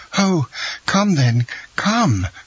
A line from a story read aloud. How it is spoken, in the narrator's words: cried she